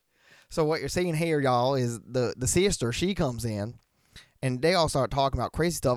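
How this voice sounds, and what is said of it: Put-on Southern accent. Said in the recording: “it's gonna make me start talking in a southern accent.”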